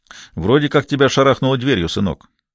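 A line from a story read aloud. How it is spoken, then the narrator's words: Plain. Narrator (Russian): сказал Пелетье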